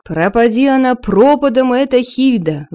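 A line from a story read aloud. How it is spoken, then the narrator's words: Shouted out. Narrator (Russian): выкрикнул Торвард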